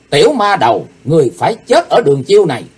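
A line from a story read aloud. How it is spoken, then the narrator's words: Furious roar. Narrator (Vietnamese): vô cùng căm tức, gầm to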